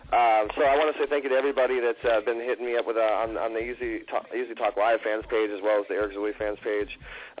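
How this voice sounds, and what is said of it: Sick, slightly off voice. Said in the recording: “my voice is a little out of it. I'm a little sick this morning”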